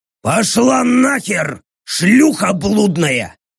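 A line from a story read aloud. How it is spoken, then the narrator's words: Roaring orc. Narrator (Russian): проревел поддерживающий меня орк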